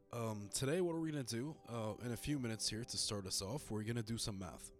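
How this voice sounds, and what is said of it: Sick, rough-sounding voice. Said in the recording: “I'm still pretty sick and my voice is still sounding pretty bad”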